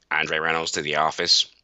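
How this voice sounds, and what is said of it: Imitates another person's voice. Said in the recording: “he had a very, very distinct voice, and I could mimic him very well ... He used to talk like that”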